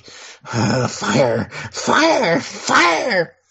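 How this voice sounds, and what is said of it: Cartoon character voice impression. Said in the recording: “I just did a Beavis impression.”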